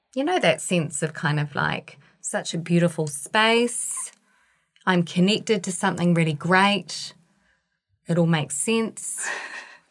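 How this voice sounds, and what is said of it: Croaky voice. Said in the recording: “I don't know why my voice is so croaky right now.”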